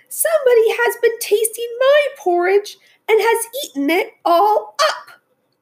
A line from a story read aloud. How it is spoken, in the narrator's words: cried the little wee bear in his little wee voice